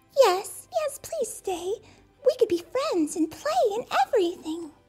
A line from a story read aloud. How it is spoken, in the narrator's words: the mouse squeaked